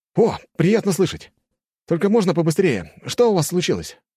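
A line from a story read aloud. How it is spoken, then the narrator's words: Quick shout. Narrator (Russian): быстро прокричал граф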